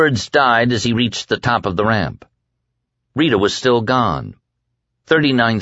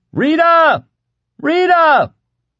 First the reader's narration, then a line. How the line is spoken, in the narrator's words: He cupped his hands around his mouth and cried